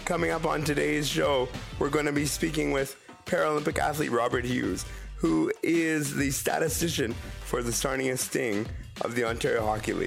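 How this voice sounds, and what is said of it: Voice sounds ill, under the weather. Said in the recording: “a little under the weather today, so that's why my voice sounds a little bit different than normal”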